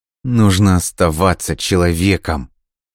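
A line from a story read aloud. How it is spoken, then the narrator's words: Through gritted teeth. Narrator (Russian): сквозь зубы процедил Альберт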